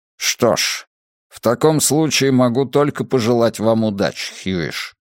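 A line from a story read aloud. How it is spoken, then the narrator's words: Plain. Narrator (Russian): сказал начальник полиции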